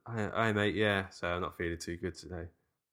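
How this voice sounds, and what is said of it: Quieter, tired-sounding voice. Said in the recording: “I do kind of like tired voice, which is fairly like what my voice is like anyway. But like it's a little bit quieter.”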